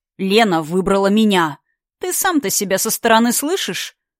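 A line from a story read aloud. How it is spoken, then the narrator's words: Contemptuous chuckle. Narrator (Russian): Лар презрительно хохотнул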